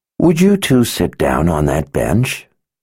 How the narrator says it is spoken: Sister Yulisha growled

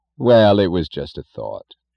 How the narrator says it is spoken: said Mr

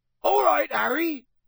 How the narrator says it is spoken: Hagrid bellowed back

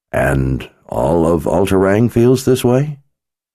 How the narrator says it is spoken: Nikki sighed

